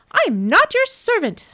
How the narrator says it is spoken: snapped Nora, her eyes blazing

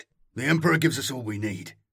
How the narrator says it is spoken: snapped Arvo

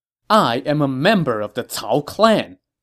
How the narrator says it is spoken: Cao Ren said angrily

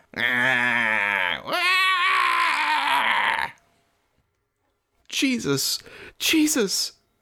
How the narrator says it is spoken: bawling, sounded like

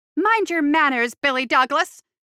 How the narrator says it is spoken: snapped Mrs

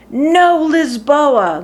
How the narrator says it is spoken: the man bellowed

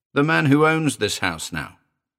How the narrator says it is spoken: Meller said impatiently

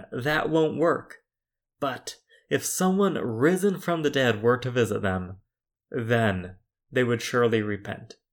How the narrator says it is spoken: cried the rich man

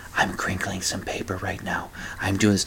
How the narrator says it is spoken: they'll start whispering to their listeners

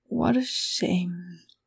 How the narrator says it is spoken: she murmured

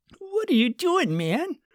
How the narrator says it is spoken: Adam whined

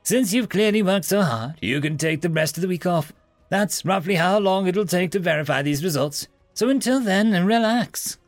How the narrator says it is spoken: the professor, with the joy in his voice being almost infectious

